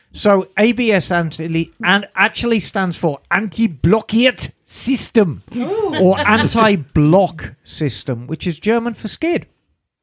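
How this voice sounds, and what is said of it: Mock German accent. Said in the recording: “You're just saying American words with a German accent.”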